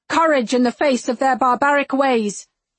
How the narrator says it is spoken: I shout

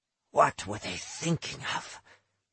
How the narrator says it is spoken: he kept whispering

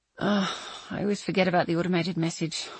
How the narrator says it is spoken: I sighed

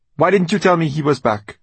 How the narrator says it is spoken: Brianna snapped

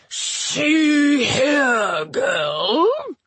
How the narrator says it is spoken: Shu growled

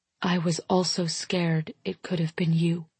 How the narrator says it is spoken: I whisper

